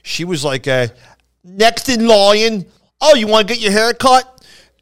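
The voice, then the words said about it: Very thick Philadelphia accent. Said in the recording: “the girl who cut my hair had the thickest, you can hear my accent. Imagine my accent on steroids.”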